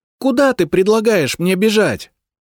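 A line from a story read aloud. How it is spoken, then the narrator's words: Furious shout. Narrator (Russian): закричала Мартина в ярости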